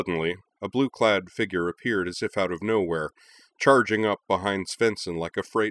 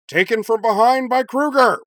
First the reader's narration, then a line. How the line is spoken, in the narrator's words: Professor Jim bellowed, disbelieving